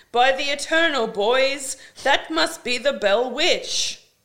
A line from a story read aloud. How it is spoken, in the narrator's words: Jackson hollers